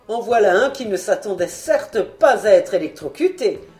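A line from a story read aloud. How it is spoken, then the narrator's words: Laughing. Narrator (French): fis-je en riant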